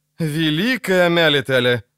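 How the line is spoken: Sigh. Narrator (Russian): вздохнула Неннеки

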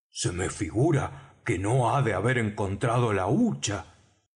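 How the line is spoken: Old man speaking. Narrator (Spanish): dijo el viejo Morgan

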